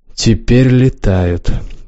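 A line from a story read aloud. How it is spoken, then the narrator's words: Dejected voice. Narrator (Russian): сказал Развияр упавшим голосом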